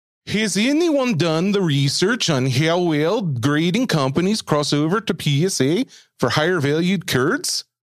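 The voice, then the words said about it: Mock Scandinavian accent, Swedish Chef-like. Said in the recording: “try your best Scandinavian accent ... Norwegian ... sounds more like the Swedish chef”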